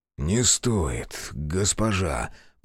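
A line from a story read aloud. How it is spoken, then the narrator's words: Hoarse rasp. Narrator (Russian): прохрипел Манахиро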